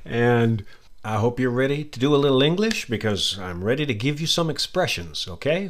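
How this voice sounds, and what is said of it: American accent. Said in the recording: “that's my American accent”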